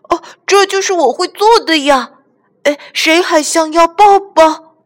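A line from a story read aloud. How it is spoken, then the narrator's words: Excited calling. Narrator (Chinese): 小憨叫起来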